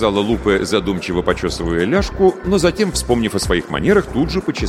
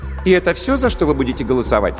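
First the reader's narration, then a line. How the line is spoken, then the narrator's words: Plain. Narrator (Russian): спросила она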